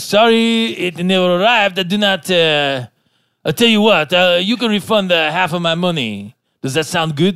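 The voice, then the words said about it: Put-on French accent. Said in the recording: “that French accent? ... The French voice.”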